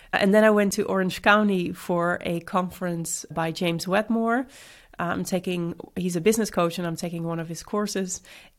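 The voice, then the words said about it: Sick, congested voice. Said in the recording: “as you can hear from my voice, I wasn't feeling that great ... I just still have like a cold”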